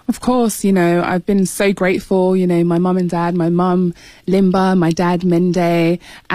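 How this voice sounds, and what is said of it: British accent. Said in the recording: “you might have been able to tell from ... accent that you grew up in the UK ... another Brit”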